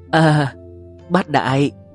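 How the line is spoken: Moaning. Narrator (Vietnamese): Hà Tiểu Hà miệng rên rỉ

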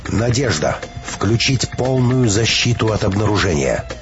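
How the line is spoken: Stern command, fear suppressed. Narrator (Russian): Переборов страх, Петровская взяла себя в руки и строго приказала

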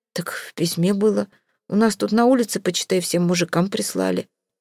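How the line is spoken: Forced-out words. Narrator (Russian): выдавил

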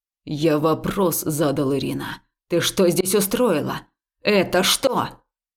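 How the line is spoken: Furious growling. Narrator (Russian): Долсоу продолжал рычать, словно ему зад подпалило

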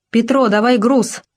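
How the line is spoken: Shout while moving. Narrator (Russian): на ходу крикнул Кучмин

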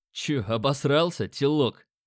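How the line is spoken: Tattooed man smirking. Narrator (Russian): хмыкнул татуированный

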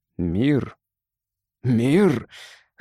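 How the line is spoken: Angry growl. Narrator (Russian): злобно зарычал рыцарь

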